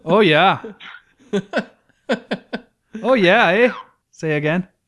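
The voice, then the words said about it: Put-on Canadian accent. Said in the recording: “It is hard to hold a Canadian accent for long because you want to go stronger.”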